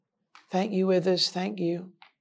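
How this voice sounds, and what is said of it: Low, quiet voice. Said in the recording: “he said in a low voice.”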